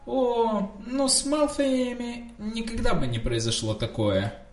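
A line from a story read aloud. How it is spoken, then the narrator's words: Purring. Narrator (Russian): промурлыкал Драко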